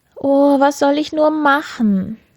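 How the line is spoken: Sobbing. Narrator (German): sagte und schluchzte

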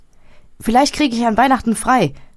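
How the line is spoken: Called while leaving. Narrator (German): rief, als er ging

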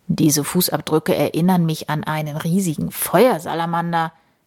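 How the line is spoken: Murmuring. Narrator (German): Der Jäger murmelt

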